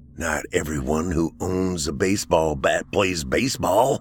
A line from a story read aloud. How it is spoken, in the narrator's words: Tolliver snarled